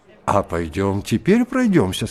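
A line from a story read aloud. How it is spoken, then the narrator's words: Plain. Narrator (Russian): сказал Турбин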